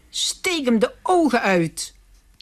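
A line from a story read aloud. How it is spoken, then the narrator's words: Little man, strange language. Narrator (Dutch): riep het manneke in een eigenaardige taal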